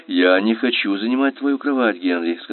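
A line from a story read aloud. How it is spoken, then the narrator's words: Plain. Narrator (Russian): сказал я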